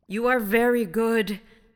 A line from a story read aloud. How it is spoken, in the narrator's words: exclaimed the voice